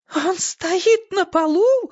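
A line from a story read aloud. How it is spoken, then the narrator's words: Shrill scream. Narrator (Russian): завизжала голубой жасмин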